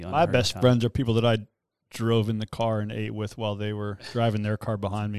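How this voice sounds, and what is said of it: Sarcastic tone. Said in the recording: “that was sarcastic. That was just me being sarcastic.”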